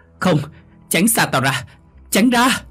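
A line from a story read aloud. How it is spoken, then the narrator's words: Screaming. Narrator (Vietnamese): bà Huyền mới thét lên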